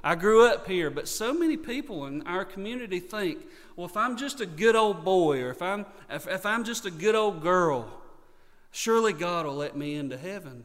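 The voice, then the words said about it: Rural North Carolina Southern accent. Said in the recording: “I grew up in Yakin County. I'm a Yakin County boy. That's my accent doesn't give me away”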